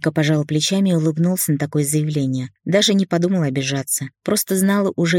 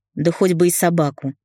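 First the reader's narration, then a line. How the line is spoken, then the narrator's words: Snorting. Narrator (Russian): фыркнула Света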